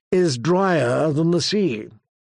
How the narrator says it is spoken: murmured Lady Oakheart with a bitter smile

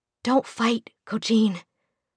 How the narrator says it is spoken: she whispered

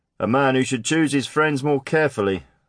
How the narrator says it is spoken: somebody quipped

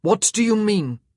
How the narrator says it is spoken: Simon asked in a deadly voice

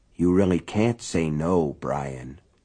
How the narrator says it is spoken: he said softly

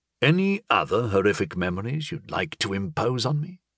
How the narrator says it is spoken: Janik asked, softly and sarcastically

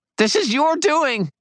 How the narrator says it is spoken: Rudolph squealed

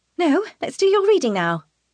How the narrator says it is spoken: Tana says brightly

